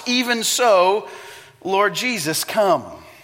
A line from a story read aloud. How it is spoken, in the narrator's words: the Bible shouts